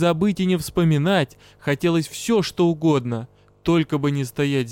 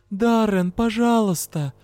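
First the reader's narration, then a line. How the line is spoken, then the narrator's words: Pleading. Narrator (Russian): взмолилась я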